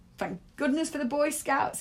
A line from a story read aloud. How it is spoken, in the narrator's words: he laughed